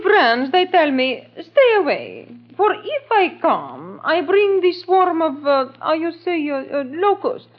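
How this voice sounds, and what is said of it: Phony put-on foreign accent. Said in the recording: “it's good to be able to drop that phony accent.”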